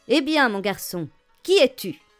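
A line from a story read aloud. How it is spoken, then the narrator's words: Barked by captain. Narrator (French): aboya le capitaine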